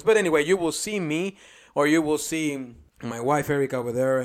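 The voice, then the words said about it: Speaks with a noticeable accent. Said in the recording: “you recognize my accent voice”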